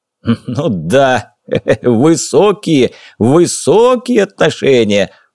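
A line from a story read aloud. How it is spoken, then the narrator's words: Loud laughter. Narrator (Russian): Уорд захохотал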